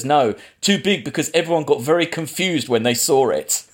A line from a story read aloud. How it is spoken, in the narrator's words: Lars von Trier laughs and says